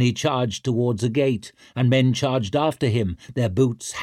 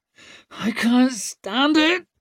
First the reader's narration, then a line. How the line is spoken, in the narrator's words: she whimpered